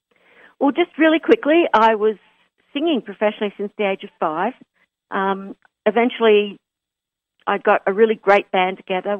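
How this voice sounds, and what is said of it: Australian accent. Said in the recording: “we want to match our New York and Australian accents.”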